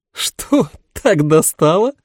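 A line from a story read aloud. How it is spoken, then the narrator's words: Loud laughter. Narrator (Russian): расхохоталась Дилани Анна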